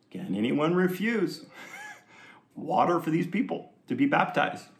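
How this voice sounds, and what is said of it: Put-on Jewish accent. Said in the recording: “It's my Jewish accent.”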